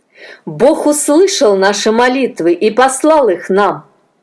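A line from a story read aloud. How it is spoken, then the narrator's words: Plain. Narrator (Russian): сказал он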